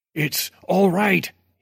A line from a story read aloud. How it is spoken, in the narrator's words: he yelled jovially over the thump of the music